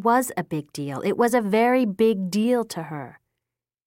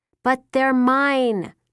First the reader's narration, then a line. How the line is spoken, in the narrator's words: Bridget shouted